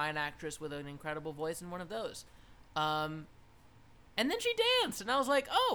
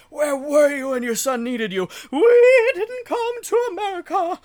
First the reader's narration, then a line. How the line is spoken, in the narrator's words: It's just screaming